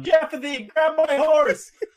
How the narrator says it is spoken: I just shout down

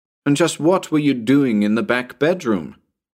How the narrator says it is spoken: I asked rather harshly

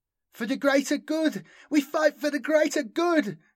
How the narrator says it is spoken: cried Nuri

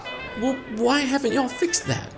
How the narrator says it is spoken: He stammered

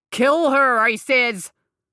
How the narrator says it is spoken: Seamus roared

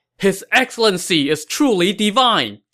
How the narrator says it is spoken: Zhang Yi shouted

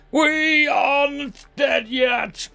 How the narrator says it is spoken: I roared out

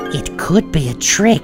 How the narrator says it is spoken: Snively whispered to Robotnik

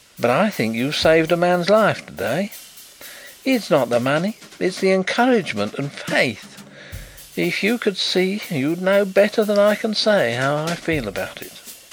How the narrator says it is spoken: he said in a queer voice

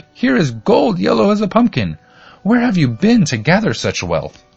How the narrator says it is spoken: she screamed

